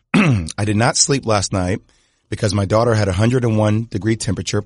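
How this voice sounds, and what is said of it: Hoarse, strained voice. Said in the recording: “I just want you to know that I've lost my voice.”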